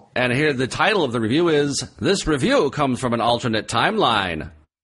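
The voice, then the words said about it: Old-time radio announcer voice. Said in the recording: “old-time radio voice”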